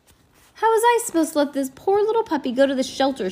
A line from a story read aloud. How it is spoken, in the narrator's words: She cried